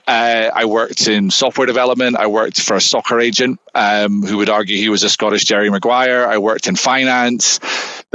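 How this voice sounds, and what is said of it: Scottish accent. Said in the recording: “as you can tell from my accent, I am not from Southern California... It started back in Scotland, where I'm from.”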